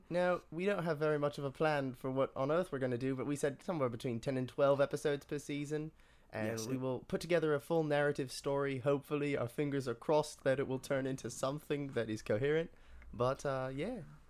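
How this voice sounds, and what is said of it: Slipping put-on British accent. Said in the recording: “My British accent really just went downhill there, didn't it?”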